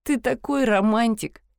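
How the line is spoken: Giggling. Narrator (Russian): хихикнула я

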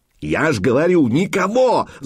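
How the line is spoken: Yelled. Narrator (Russian): заорал первый

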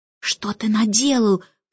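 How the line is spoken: Whisper. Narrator (Russian): прошептала Джейн

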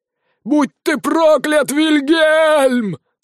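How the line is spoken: Howling. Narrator (Russian): взвыл зомби-колдун

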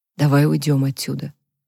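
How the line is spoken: Whispered in ear. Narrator (Russian): прошептал Люк ей на ухо

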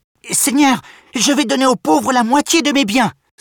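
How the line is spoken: Exclaimed. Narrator (French): s'exclame-t-il

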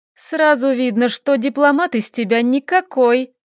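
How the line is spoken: Mocking taunt. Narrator (Russian): насмешливо поддела его вредная вампирша

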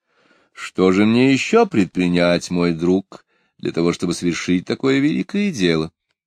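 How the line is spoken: Plain. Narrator (Russian): спросила Екатерина Алексеевна

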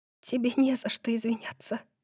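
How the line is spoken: Whispered. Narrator (Russian): прошептала

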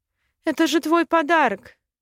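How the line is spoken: Sobbing. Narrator (Russian): всхлипывала она

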